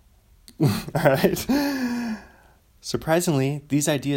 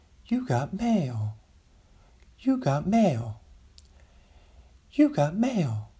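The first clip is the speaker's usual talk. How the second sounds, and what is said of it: AOL "You got mail" voice impression. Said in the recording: “let me try to really do the voice”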